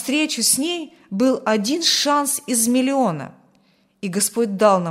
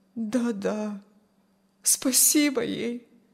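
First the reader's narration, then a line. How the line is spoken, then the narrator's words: Sad agreement. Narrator (Russian): грустно согласилась Аня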